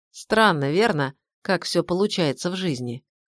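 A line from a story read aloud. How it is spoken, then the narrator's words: Sudden, lifeless voice. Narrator (Russian): произнес вдруг он своим неживым голосом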